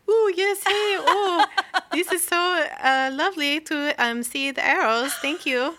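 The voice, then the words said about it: Put-on Belgian accent. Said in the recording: “What a Belgian accent.”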